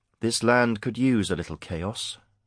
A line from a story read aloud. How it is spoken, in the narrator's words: said Mara